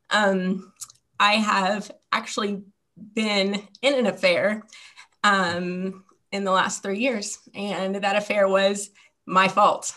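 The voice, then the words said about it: Quivering, emotional voice. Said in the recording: “hear the quiver in my voice”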